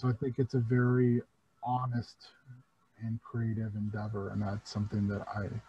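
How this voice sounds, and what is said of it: Flat, droll, unexcited tone. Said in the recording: “you can't tell by my tone of voice, but I'm pretty excited about it ... I will attempt to be a little less droll and maybe be a little more of my normal gregarious self”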